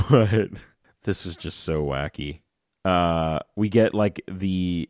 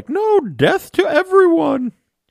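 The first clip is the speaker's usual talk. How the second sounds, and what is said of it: Alpha Centauri impression, maybe Julia Child. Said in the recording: “Was that a good Alpha Centauri impression? ... It was either that or Julia Child.”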